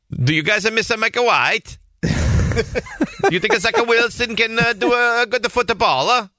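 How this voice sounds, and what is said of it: Put-on comedic accent. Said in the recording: “ask them in an accent.”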